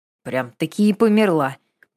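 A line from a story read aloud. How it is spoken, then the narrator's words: Grumbling. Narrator (Russian): пробурчала Катя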